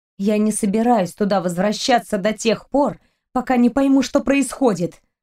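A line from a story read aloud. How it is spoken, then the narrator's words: Grumbling. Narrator (Russian): проворчала девушка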